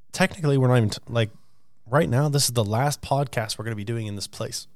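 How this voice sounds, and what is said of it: Scratchy, worn-out voice. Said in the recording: “you can hear my voice is kind of shot ... It's just a little scratchy today”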